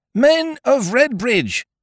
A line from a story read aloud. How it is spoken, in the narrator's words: he shouted